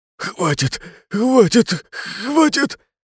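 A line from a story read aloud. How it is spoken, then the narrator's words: Desperate moaning. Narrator (Russian): Лишь стонал он, неистово желая, чтобы все это прекратилось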